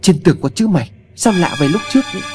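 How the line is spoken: Loud startled shout. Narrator (Vietnamese): cậu hét to

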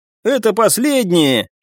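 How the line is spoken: Encouraging shout. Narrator (Russian): крикнул, чтобы приободрить смертельно уставших товарищей

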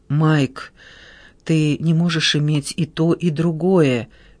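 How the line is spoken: Soft coaxing. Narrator (Russian): мягко увещевал его Паола

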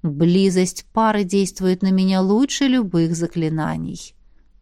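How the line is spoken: Purring. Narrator (Russian): мурлыкнул дух

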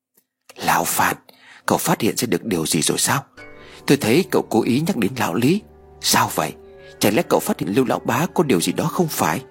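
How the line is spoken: Whisper. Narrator (Vietnamese): nhẹ nhàng như con mèo thì thảo nói

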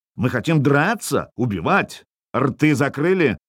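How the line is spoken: Barking. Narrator (Russian): рявкнул я

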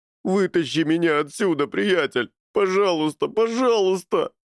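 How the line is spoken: Whining plea. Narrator (Russian): скулил он

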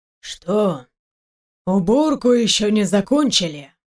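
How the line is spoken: Loud creaky voice. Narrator (Russian): спросил вошедший громким, скрипучим голосом

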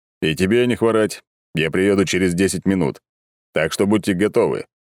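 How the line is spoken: Stern voice. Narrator (Russian): суровым голосом сказал

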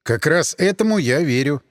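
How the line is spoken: Calm. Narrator (Russian): спокойно сказал я

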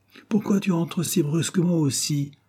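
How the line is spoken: Shouted. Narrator (French): cria-t-elle

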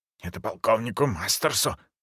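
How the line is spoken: Hurried whisper. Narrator (Russian): торопливо прошептал он

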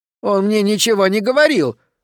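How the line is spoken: Shrill squeal. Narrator (Russian): взвизгнул Окси

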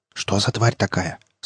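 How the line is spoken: Whispered question. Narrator (Russian): спросил шепотом Штырь

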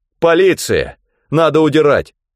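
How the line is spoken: Shouted. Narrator (Russian): Спарсер крикнул

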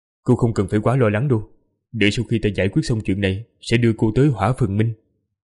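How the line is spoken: Cold speech. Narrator (Vietnamese): lạnh lùng, nói

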